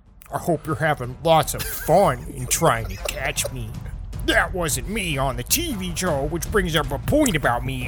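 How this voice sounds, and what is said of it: Dramatic reading in Zodiac killer voice. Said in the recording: “gonna do this in the voice of Zodiac ... Henry Zebrowski reading Zodiac ... dramatic reading”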